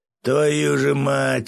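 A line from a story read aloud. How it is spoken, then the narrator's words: Groaning. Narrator (Russian): простонал Свят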